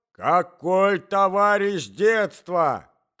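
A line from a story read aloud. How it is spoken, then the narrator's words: Old man shouting. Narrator (Russian): кричал старик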